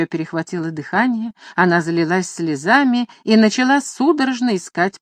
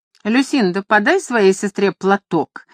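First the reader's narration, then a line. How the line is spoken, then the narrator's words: Sharp. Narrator (Russian): резко сказала леди Белвиль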